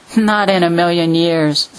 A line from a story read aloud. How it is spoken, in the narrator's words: scoffed Renfrew